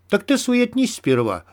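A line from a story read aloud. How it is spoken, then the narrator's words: Cheerful reply. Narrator (Russian): бодро отозвался Мякиш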